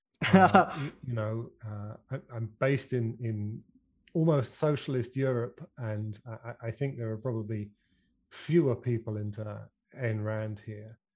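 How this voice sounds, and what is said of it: British accent. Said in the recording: “my funny British accent”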